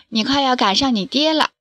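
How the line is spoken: Smiling. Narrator (Chinese): 张家妈妈笑着说

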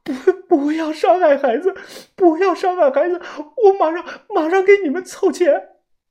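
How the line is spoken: Tearful pleading woman. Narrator (Chinese): 大姐脸上是梨花带雨，哭诉的说道

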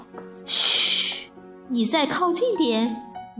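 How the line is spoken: Happy loud shout. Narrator (Chinese): 丽丽高兴的大叫

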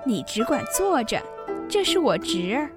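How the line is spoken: Laughing. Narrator (Chinese): 凤姐笑道

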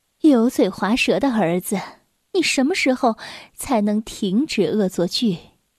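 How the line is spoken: Sighing. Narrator (Chinese): 叹着气说道

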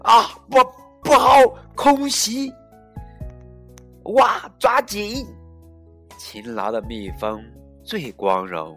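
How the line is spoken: Shout. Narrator (Chinese): 阿诺大喊

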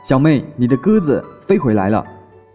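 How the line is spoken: Excited shout. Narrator (Chinese): 柱子兴奋的大喊

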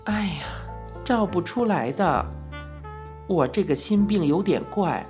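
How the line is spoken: Sighing. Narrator (Chinese): 小玉叹道

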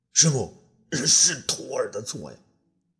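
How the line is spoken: Ashamed, wailing. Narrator (Chinese): 朱安氏无地自容啊，嚎啕大哭

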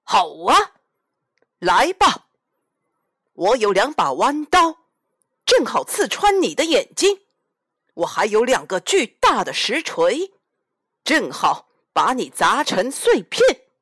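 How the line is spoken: Troll's loud roar. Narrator (Chinese): 山怪大声吼叫

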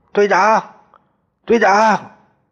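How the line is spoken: Shouting hard. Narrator (Chinese): 我使劲喊

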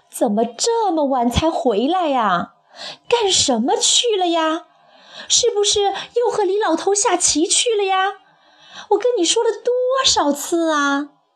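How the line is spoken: Old woman shouting. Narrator (Chinese): 老太婆便朝他嚷了起来

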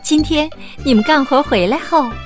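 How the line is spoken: Smiling, gentle. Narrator (Chinese): 白雪公主微笑着说

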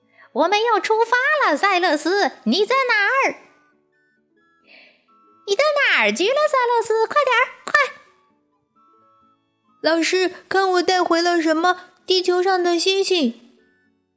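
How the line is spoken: Angry shout. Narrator (Chinese): 卡萨夫人生气的大喊

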